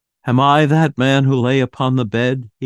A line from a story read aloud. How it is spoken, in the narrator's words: he cried, on his knees